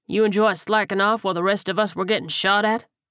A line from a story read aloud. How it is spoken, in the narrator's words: Mason scoffed